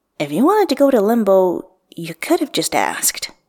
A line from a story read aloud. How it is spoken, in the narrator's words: Wuxian says, keeping his voice casual